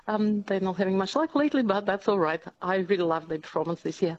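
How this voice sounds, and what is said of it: Latvian accent. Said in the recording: “you probably picked my accent... born in Europe... I'm from Latvia”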